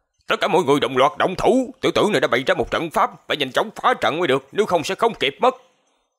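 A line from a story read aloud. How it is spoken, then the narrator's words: Old man shouting fiercely. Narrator (Vietnamese): lão giả liền dữ tợn quát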